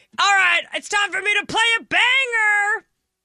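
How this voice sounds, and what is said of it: Imitates another person's voice. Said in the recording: “my impression of”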